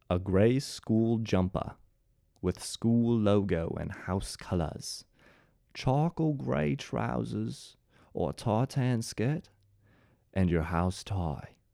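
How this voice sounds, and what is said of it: Attempted British accent, sounds Australian. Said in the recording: “Was that an Australian accent? Yeah, probably. But I'm not talented enough to do a British accent. So I did my best”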